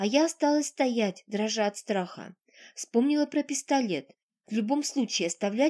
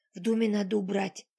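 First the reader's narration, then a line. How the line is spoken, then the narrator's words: Hurried whisper. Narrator (Russian): торопливо зашептала я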